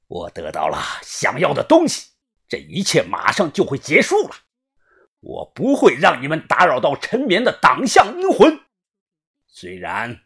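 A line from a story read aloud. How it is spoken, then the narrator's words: Loud resonant voice. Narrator (Chinese): 七月爬隔着河面，他声音洪亮的说道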